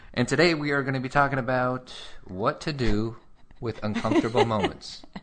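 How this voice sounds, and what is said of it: Smooth announcer-style radio voice. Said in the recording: “You're starting to get like a radio voice.”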